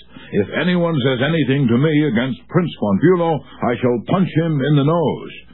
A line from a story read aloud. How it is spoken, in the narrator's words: waxed so enthusiastic that he exclaimed with doubled fists